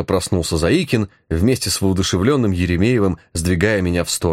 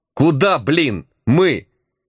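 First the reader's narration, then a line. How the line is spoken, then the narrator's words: Barked sharply. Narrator (Russian): опомнившись, рявкнул я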